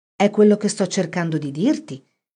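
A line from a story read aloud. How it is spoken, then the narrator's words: Plain. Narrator (Italian): disse Phoebe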